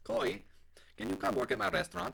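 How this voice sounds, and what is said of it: Bad put-on English accent. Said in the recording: “that's the weirdest accent ever... if that is your English accent, you need to not put that on your resume”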